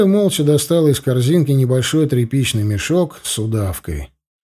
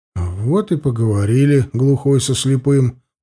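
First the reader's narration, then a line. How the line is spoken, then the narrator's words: Grumbling. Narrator (Russian): проворчал я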